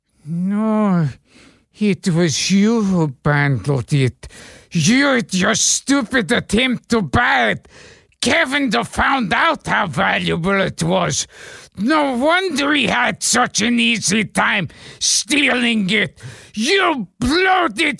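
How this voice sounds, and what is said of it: Peter Lorre impression. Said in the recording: “your Peter Lorre imitation ... can you do Peter Lorre? ... Do Peter Lorre.”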